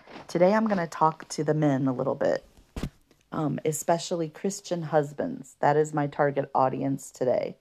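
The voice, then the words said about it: Somber, subdued voice. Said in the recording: “You probably hear in my voice that I'm pretty somber.”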